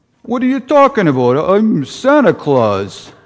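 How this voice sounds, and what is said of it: Santa voice with Brooklyn accent. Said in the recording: “imagine sort of a Santa with kind of a Brooklyn accent.”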